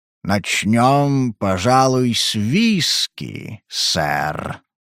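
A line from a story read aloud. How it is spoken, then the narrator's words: Fat man's purr. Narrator (Russian): промурлыкал толстяк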